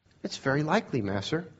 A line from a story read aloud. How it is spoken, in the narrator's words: said Tom calmly